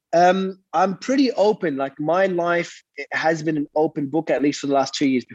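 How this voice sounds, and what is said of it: Congested, blocked-nose voice. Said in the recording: “got my nose blocked. So if my voice sounds a bit weird”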